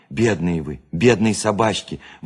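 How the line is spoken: Pitying exclamation. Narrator (Russian): воскликнула она жалостливо

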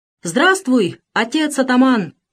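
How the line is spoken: Crowd shouting enthusiastically. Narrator (Russian): закричали восторженно люди

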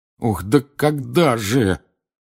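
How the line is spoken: Moaning. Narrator (Russian): простонал Рон

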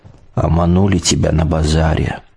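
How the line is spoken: Old man's muffled voice. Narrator (Russian): глухо вымолвил дед

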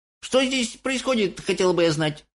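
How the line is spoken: Startled old woman shouting. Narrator (Russian): закричала, внезапно проснувшись, бабушка Джозефина

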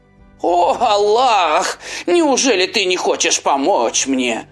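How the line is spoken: Rich man shouting. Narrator (Russian): закричал богач

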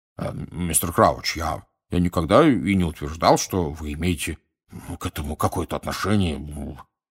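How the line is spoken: Embarrassed mumble. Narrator (Russian): пробормотал Амос Дигори пунцово краснее за своей косматой бородой

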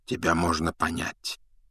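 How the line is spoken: Quiet. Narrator (Russian): тихо проговорил Дамблдор

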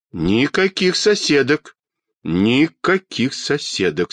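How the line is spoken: Stern. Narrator (Russian): строго сказал детский доктор

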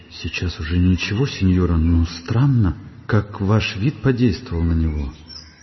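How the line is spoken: Frightened quiet reply. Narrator (Russian): Фермерша была испугана и тихо ответила ей

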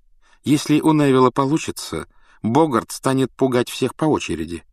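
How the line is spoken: Plain. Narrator (Russian): сказал Люпин

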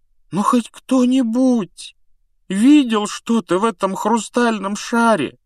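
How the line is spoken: Unhappy, miserable question. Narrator (Russian): спросил Невилл несчастным голосом

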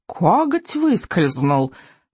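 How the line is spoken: Whining. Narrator (Russian): заскулил крючкозуб

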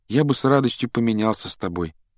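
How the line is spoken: Unhappy voice. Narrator (Russian): несчастным голосом произнес Гарри

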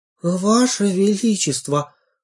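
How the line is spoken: Hoarse voice. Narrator (Russian): ответила я и сама удивилась, как сипло звучит мой голос

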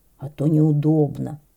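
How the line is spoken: Muttering moose. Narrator (Russian): пробормотал лось

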